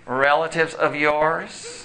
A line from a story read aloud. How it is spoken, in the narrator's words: The man said sarcastically